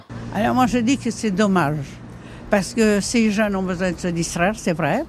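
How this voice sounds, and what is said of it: Old-fashioned regional French accent. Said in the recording (French): “vous avez un bel accent ... un accent comme ça, je le reconnais direct. Toutes les copines de ma grand-mère parlaient comme ça ... je suis de France, oui. Mais dans la Mayenne”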